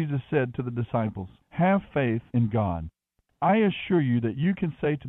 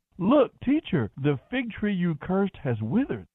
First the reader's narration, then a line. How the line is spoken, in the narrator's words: Peter exclaimed